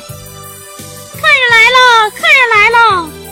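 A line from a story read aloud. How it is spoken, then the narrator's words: Shouting. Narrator (Chinese): 他这么一喊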